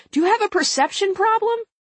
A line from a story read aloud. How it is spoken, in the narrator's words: a reporter yelled out